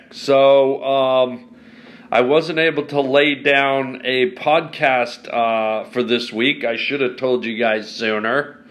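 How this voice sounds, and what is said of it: Voice sounds sick with cold. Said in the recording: “as you can hear from my voice, yours truly has a wee bit of a, a bad cold”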